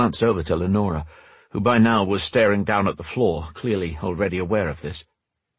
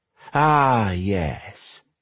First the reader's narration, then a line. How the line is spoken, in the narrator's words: she sneered